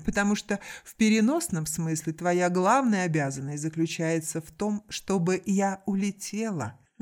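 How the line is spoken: Laughing. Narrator (Russian): вновь рассмеялась Наоми

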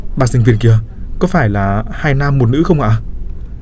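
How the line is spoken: Tense trembling question. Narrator (Vietnamese): Cổ tôi cứng đờ ra, tôi run rẩy hỏi thêm

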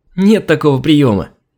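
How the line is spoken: Laughing merrily. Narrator (Russian): Весело засмеялась Алина

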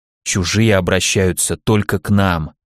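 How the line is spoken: Minister's whispered answer. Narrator (Russian): почему-то шепотом ответил министр

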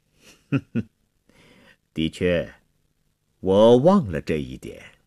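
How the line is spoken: Sneering. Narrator (Chinese): 国王冷笑着说

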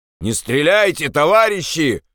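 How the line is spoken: Shout. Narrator (Russian): крикнул Андрес

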